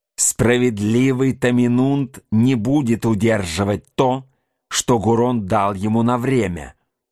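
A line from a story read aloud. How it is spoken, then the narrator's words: Plain. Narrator (Russian): сказал он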